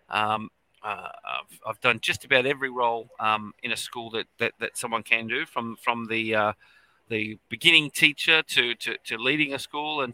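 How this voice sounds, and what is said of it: Australian accent. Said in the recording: “I'm an educator from Australia, as you could probably tell from the accent”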